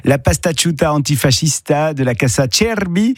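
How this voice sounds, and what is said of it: Put-on Italian accent. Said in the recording (French): “je m'améliore avec mon accent de minute en minute”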